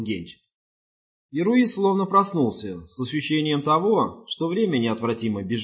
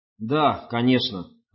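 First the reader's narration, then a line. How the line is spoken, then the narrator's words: Plain. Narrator (Russian): ответил Руис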